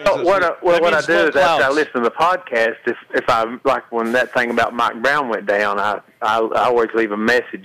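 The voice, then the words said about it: Hillbilly accent. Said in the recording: “my hillbilly accent”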